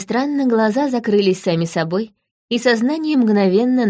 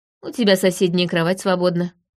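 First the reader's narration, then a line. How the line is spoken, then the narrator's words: Snorting. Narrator (Russian): хмыкнул змей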